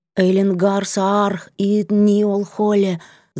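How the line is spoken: Halting whispered chant. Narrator (Russian): зашептала я сбивчиво, подхватывая странный напев

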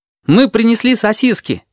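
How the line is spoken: Cheerful, then faltering. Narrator (Russian): весело начал горбач и запнулся

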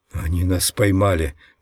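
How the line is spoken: Whisper. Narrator (Russian): прошептал он

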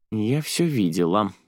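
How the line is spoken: Displeased grumbling. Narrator (Russian): недовольно пробурчала Джуди

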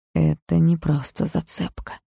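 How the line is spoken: Quiet hoarse voice. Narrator (Russian): тихим, хриплым голосом произнес Грейсон

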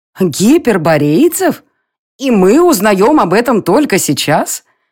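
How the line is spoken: Offended exclamation. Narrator (Russian): обиженно воскликнула Нира

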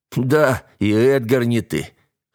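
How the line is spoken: Hoarse laugh. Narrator (Russian): хрипло рассмеялся Айк

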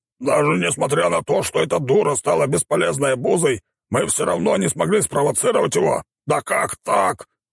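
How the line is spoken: Boar roaring. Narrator (Russian): взревел кабан

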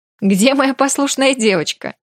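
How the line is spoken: Laughing. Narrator (Russian): рассмеялся он

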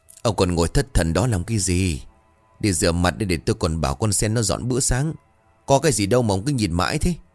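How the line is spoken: Sighing, throat-clearing. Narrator (Vietnamese): Bà thở dài chớp miệng rồi hắng giọng

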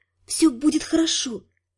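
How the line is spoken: Whispering. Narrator (Russian): шептала

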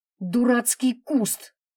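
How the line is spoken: Angry spat complaint. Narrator (Russian): Зло выплюнула Наташа и пожаловалась

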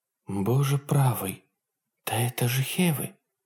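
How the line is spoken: Whisper. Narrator (Russian): прошептала младший тактик Белерафонта

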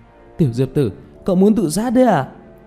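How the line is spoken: Tense alarmed shout. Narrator (Vietnamese): Tiểu Mã không rõ Diệp Thiếu Dương đang làm gì, liền khẩn trương hét lên

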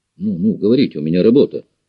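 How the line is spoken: Irritated. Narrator (Russian): раздраженно произнес пилот

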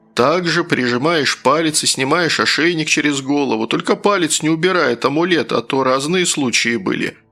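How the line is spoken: Chuckling fat man. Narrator (Russian): хохотнул толстяк

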